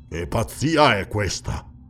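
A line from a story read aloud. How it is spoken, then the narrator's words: Harsh displeased grumble. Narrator (Italian): brontolò il cimmero con asprezza, non trovando di suo gusto le parole e i modi dell'uomo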